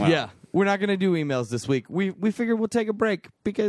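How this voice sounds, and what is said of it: Usual voice. Nothing is said of it.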